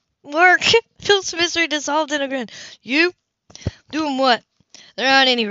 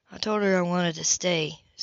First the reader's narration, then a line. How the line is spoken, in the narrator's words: Seth mumbled